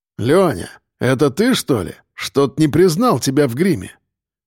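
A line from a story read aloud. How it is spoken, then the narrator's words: Snorting, half joking. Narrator (Russian): хмыкнул второй почти шуткой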